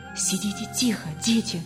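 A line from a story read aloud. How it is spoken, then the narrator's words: Whisper. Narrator (Russian): шепнула она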